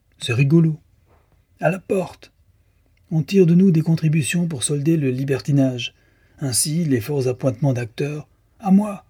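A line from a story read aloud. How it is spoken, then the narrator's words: Exclaimed. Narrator (French): s'écria Delmar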